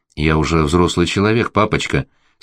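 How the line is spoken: Calm tone. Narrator (Russian): спокойным тоном ответила она

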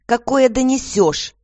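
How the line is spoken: Irritated woman answering. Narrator (Russian): раздраженно ответила женщина

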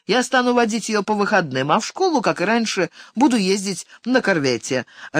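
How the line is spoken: Joyful, relieved promise. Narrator (Russian): радостно пообещал Санто, словно нашел наилучший выход из сложного положения

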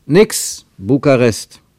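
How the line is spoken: Call. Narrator (German): rief er

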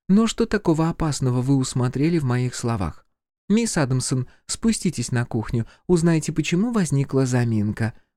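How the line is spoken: Calm request. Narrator (Russian): попросила она спокойно, но когда наклонилась к уху Оливии, то прошептала с отчаянием

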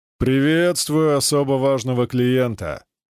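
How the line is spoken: Booming drone. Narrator (Russian): прогудел Мэнсон

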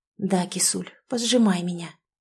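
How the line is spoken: Dazed muttering. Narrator (Russian): бормочет, словно в прострации

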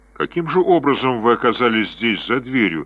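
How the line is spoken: Plain question. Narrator (Russian): спросил Джефф

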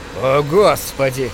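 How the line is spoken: Groaned. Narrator (Russian): простонал Джим

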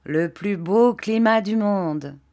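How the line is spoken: Plain. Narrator (French): dit ma tante

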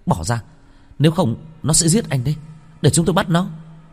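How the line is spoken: Irritated shout. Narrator (Vietnamese): Vân Vân bực bội hét lên

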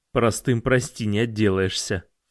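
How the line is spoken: Snorted. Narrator (Russian): фыркнул

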